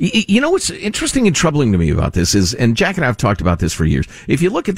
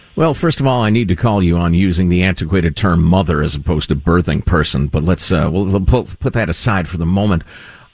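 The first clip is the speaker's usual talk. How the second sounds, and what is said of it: Sarcastic tone. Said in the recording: “that was sarcasm, obviously.”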